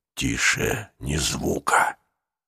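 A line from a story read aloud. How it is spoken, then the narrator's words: Whispered. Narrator (Russian): прошептал Нестор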